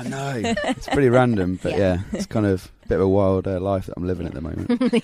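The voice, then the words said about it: Genuine non-American accent. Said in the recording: “The accent is real... It's legit... it's a real accent”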